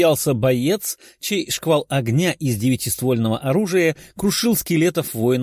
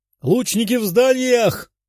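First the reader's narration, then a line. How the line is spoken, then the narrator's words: Shout. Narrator (Russian): крикнул другой боец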